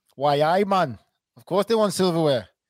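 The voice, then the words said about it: Put-on Geordie accent. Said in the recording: “That's my Geordie accent”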